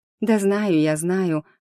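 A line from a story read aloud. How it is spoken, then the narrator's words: Tired. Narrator (Russian): ответила устало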